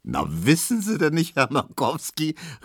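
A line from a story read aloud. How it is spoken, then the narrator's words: Laughing call. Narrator (German): rief Tesch lachend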